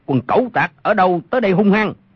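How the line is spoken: Shout from darkness. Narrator (Vietnamese): Trong bóng tối có một người quát lên

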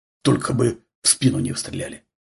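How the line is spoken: Muttering. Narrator (Russian): бормотал Дениска

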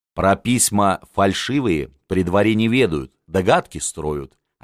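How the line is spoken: Plain. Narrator (Russian): ответил Михаил Владимирович

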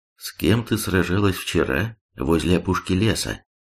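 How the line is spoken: Calm girl's statement. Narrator (Russian): девушка спокойно заявила

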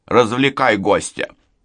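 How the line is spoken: Stern. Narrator (Russian): строго сказал

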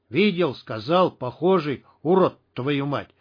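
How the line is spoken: Through gritted teeth. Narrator (Russian): цедил сквозь зубы Шах

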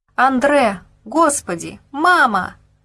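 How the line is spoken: Desperate screaming. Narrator (Russian): кричала Гебель, уже не зная, к кому еще воззвать о помощи

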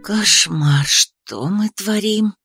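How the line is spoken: Whispered. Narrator (Russian): прошептала Ри

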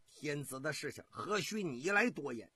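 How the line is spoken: Angry. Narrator (Chinese): 幽王怒道

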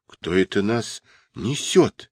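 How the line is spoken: Frightened question. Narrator (Russian): испуганно спросили

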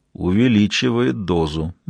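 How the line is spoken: Grim addition. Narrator (Russian): мрачно добавил Ги

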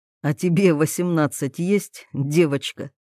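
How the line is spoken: Demigod's snort. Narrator (Russian): хмыкнул полубог

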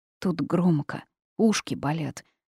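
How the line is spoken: Grumbling little girl. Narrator (Russian): буркнула малышка

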